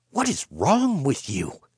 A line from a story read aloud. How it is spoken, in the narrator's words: she hissed